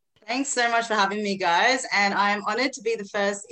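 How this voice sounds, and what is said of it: Australian accent. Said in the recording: “I love your Australian accent.”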